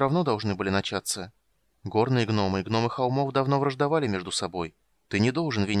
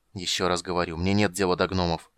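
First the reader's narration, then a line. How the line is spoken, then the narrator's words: Irritated mage. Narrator (Russian): раздраженно проговорил маг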